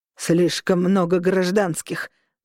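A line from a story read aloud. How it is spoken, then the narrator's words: Growling. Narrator (Russian): прорычал он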